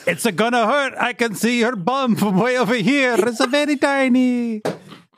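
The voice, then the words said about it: Exaggerated mock Italian accent. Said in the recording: “doing a racist Italian accent again”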